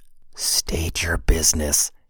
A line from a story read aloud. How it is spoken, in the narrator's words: hissed the man